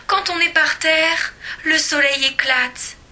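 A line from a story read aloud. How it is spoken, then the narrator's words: Exclaimed. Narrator (French): s'écrie Madame Tortue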